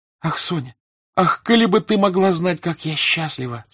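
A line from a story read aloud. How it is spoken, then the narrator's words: Plain. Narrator (Russian): сказала Наташа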